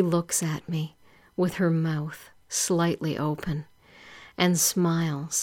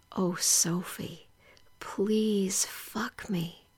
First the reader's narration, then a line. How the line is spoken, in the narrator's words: whisper gently